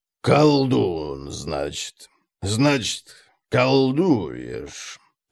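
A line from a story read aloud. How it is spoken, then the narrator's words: Drawled. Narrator (Russian): протянул Конрад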